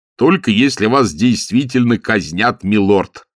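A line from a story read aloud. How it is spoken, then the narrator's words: Cheerful. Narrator (Russian): бодро сказал Маркоу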